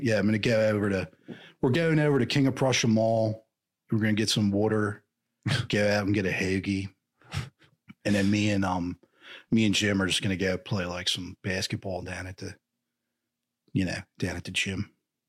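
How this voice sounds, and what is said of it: Put-on Philly accent, slightly Southern, surferish. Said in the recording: “the Philly accent, but it's a very real one. It's as unique as Boston, if not even a little more so ... it sounds a little Southern and like you said, a little surferish sometimes”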